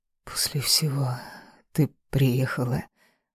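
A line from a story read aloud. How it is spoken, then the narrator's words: Hoarse. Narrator (Russian): произнес хрипло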